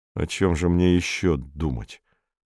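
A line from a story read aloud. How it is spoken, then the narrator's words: Muttering. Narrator (Russian): пробормотал Роберт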